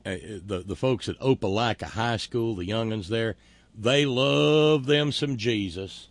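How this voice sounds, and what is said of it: Put-on Southern US accent. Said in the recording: “speaking with a southern accent”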